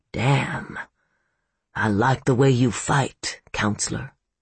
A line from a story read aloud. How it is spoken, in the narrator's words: he said softly